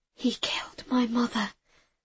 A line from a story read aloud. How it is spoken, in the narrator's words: I whispered